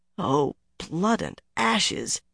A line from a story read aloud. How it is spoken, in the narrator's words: Elaine muttered, or tried to